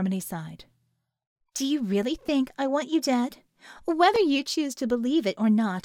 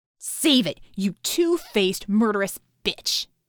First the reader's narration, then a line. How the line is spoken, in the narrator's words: Scope snarled